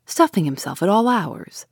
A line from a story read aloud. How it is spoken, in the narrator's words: said the voice